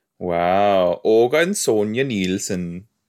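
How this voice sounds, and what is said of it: Attempted Swedish accent. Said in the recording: “That was supposed to be like a Swedish kind of accent. I don't know if that came off Swedish.”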